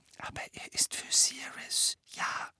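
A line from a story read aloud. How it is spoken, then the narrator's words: Whispered addition. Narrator (German): setzte er flüsternd hinzu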